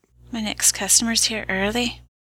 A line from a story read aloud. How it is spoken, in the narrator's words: Mother said softly, all the joy drained from her voice